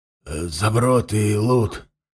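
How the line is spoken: Hoarse answer. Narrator (Russian): хрипло ответил купец

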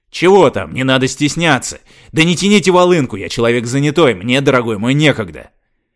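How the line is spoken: Shouting at full volume. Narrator (Russian): Теперь я уже действительно орал во все горло

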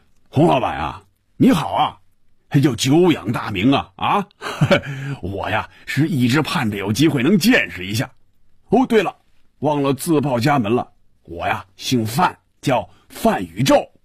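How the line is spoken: Laughing, muffled voice on phone. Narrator (Chinese): 电话里首先传入红军耳朵的是一串笑声，然后是有些瓮声瓮气的声音说

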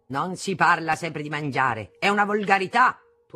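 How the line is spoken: Thundering voice. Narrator (Italian): tuonava

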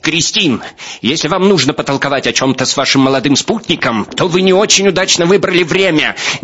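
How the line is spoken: Shrill shout. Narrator (Russian): Несколько визгливо закричал Беневский

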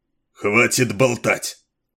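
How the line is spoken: Sharp bark. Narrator (Russian): рявкнул Стандорн

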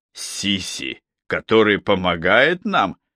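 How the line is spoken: Bitter, scornful snort. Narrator (Russian): фыркнул Йоси, желчно усмехнувшись

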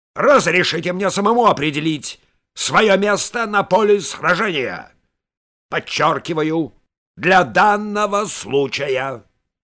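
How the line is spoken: Sharp reply. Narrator (Russian): довольно резко ответил генерал

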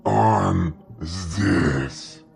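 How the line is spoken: Hoarse rasp, lanky man. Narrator (Russian): прохрипел долговязый

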